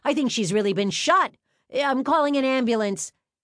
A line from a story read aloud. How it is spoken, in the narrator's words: A man yelled